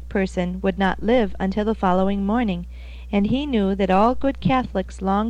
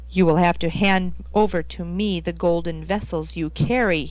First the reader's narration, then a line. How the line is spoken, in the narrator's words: he snarled